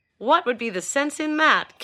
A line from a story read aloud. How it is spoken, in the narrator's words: Castell laughed